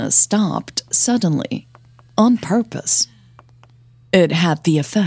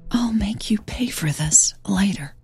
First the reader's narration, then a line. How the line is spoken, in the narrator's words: she whispered in Hannah's ear